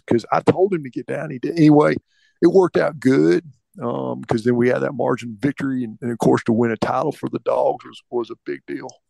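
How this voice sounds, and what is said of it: Imitates another person's voice, hoarse. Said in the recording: “I do hear a little Bill Clinton in there, but for the most part, I'm picturing Kirby, after yelling at everybody for 3 weeks.”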